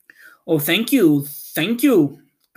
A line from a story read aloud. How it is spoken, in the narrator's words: cried the Scarecrow